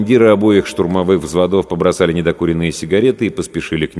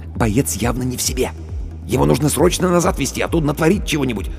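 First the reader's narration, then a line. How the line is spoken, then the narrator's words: Whisper. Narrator (Russian): Командир медотделения шепнул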